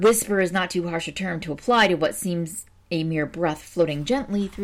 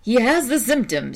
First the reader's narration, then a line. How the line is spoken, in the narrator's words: said Delaney, laughing